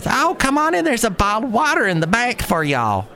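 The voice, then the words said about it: Thick Alabama Southern accent. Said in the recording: “She was this total Alabama sounding thick accent.”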